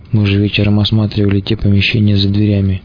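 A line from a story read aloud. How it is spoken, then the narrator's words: Whispered. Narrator (Russian): зашептал гусь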